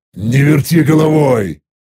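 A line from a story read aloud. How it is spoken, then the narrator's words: Irritated growl. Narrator (Russian): рыкнул раздраженно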